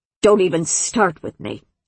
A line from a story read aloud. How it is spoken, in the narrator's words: Zan snapped